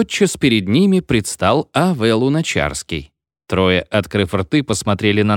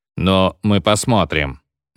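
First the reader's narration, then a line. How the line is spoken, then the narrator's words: Gloomy. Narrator (Russian): мрачно сказал второй серый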